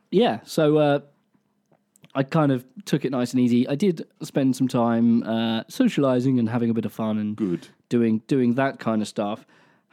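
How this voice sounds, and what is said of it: Phlegmy, congested voice. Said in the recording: “You can really hear the phlegm in my voice.”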